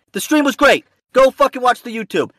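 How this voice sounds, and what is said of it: Screaming, riled-up angry voice. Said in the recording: “Now I'm screaming in my car while people are fucking walking by on the street. I look like a maniac.”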